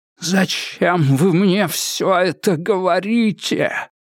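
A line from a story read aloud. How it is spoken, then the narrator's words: Hoarse wheeze. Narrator (Russian): просипел Адамс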